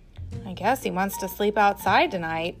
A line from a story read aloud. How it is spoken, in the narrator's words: Sophia mumbled